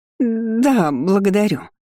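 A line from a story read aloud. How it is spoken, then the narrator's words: Stammering. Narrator (Russian): заикаясь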